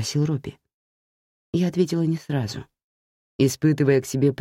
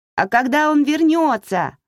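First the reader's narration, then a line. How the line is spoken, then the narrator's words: Shouted from a distance. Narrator (Russian): крикнула с качелей Эмили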